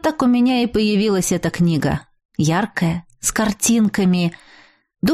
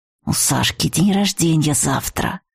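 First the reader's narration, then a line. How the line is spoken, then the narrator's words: Whispered. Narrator (Russian): шепотом сказал он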